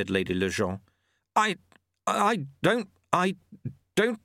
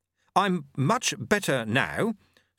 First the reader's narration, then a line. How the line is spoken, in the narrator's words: said Jeremy stiffly